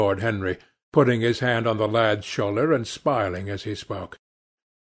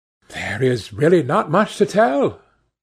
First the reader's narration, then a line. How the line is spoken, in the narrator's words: cried Dorian